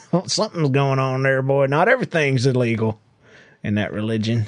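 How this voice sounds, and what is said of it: Put-on Southern US accent. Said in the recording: “Why do you suddenly have the accent? ... that's what you do when you're from the south.”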